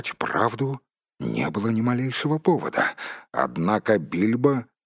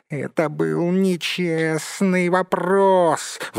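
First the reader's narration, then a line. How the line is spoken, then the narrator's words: Wailing howl. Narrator (Russian): взвыл Голлум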